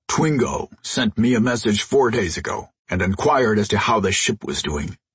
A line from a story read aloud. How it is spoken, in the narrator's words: he rumbled